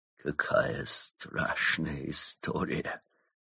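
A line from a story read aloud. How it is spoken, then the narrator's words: Whispering. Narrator (Russian): прошептал Крот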